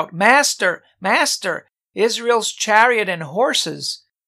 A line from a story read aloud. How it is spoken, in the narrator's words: he cried out